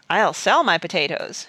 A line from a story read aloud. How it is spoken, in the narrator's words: exclaimed Mr